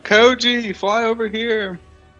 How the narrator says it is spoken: yell out

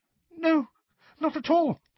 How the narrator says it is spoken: squeaked Hermione

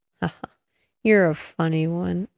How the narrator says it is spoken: chuckled the inspector

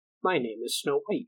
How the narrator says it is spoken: she answered

